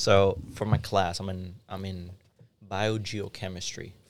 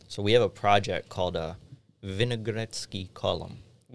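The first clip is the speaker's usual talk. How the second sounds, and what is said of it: Put-on Russian accent. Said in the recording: “I don't know why I said that in a Russian accent.”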